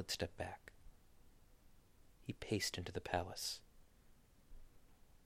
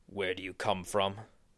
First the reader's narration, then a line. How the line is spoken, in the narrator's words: he asked Jesus